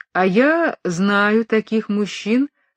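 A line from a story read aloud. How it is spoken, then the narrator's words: Plain. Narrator (Russian): сказал де Гусен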